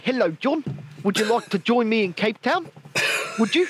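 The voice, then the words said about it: Put-on South African accent. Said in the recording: “in order to do a South African accent, yeah, what you have to do is an Australian accent, but just shorten every one of your words ... you start shortening down all of your words and accentuating things like the teeth”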